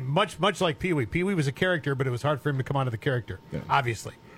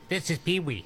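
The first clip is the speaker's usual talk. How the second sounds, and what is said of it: Imitates a comic character's voice. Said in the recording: “your impression”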